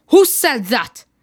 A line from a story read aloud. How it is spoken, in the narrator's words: Peter, fed up with the annoying noise, shouted out